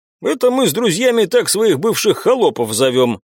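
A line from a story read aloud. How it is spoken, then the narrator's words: Laughing young man. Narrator (Russian): хохотнул парень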